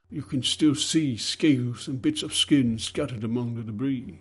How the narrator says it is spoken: sighed the overseer

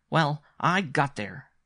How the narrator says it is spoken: announced fiercely

